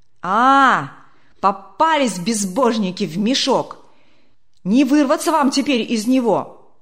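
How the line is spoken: Threatening shout from crowd. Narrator (Russian): Кто-то угрожающе крикнул из первых рядов

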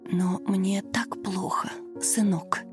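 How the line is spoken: Old woman whispering in pain. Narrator (Russian): шептала пожилая женщина, держась за сердце и корчась от боли

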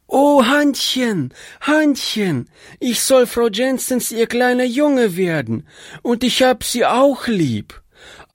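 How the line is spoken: Child shouting joyfully. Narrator (German): der kleine Bursche rief

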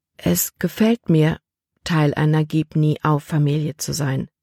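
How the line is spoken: Gentle. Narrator (German): sagte sie sanft

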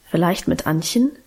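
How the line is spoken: Plain. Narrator (German): sagte sie dann

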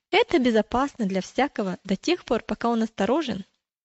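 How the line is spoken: Quick answer. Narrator (Russian): Он быстро ответил

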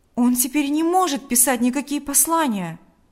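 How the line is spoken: Exclaiming. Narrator (Russian): воскликнул Павел

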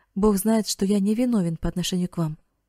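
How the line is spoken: Plain. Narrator (Russian): ответил священник

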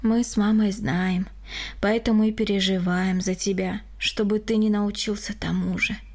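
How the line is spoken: Sighing. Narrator (Russian): вздохнул Григорий

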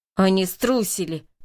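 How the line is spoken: Growled from the darkness. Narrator (Russian): прорычал голос во мраке

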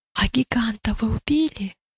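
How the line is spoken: Whispered question. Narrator (Russian): шепотом спросила милость у Матфея

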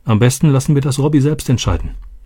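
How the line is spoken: Plain. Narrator (German): sagte Roberto

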